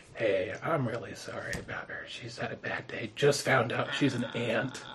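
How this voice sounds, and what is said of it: Whispering. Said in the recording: “I'm going to whisper,”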